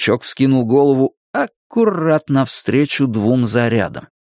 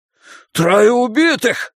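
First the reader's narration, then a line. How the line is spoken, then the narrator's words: Shout. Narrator (Russian): закричал Ллойд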